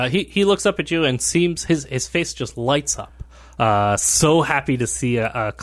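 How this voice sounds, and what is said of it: Usual voice. Nothing is said of it.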